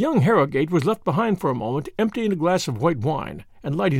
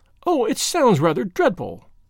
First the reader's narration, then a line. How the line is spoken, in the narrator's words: cried the girl